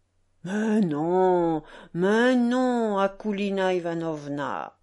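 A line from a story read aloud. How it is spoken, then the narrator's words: Drawling, disdainful. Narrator (French): répétait Piotr d'une voix traînante et dédaigneuse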